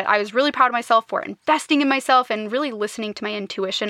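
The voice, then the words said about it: Excited, energetic voice. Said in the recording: “you can probably tell from my voice that I'm really excited about it”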